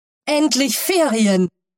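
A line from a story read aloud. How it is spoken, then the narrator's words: Contented exclamation. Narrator (German): rief Manu zufrieden aus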